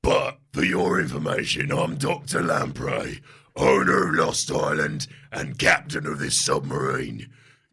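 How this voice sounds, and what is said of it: Deep booming character voice. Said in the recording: “a deep booming voice cries... says the deep voice... says the bald man”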